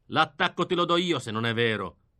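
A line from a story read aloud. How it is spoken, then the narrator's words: Grumble. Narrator (Italian): brontolò questo poldo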